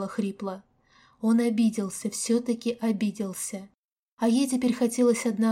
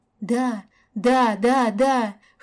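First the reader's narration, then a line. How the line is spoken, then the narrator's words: Hoarse reply. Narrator (Russian): хрипло отозвалась Каська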